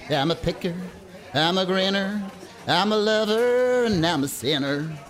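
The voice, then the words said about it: Sung in bad American accent. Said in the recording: “Do you always have to use the awful American accent when you sing?”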